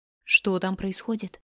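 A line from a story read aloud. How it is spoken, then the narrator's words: Whisper. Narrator (Russian): прошептала она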